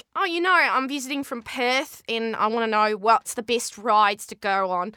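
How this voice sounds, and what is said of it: Put-on Australian accent. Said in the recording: “Australian accent is my favourite accent to do because I think I've got it pretty down at this point”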